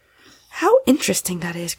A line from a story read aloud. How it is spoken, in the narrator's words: cried Polly